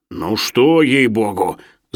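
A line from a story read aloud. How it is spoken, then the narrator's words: Displeased grumbling. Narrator (Russian): забурчал недовольно Шариков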